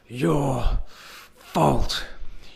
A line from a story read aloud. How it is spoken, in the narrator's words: groans